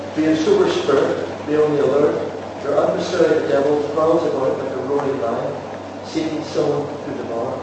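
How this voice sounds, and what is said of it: Northern Irish accent. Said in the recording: “North Irish accent”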